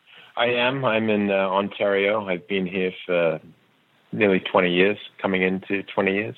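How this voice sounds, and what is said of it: English accent. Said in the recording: “the English accent might throw people off”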